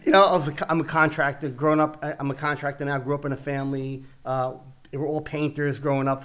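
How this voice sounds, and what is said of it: Heavy Italian Brooklyn New York accent. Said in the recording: “I grew up in Brooklyn, New York, with an Italian background. I have the New York... I have an Italian Brooklyn accent... it's kind of heavy at times.”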